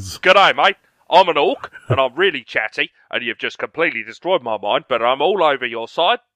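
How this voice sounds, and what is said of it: Put-on Australian accent. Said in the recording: “my Australian accent is actually as convincing as Will's one”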